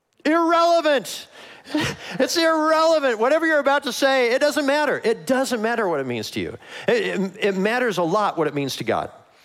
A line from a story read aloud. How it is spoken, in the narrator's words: I just want to shout out